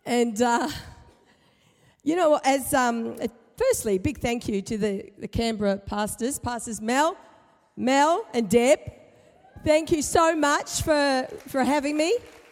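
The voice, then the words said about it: Slightly husky voice. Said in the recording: “I've been resurrected from my sick bed ... I sound a little husky”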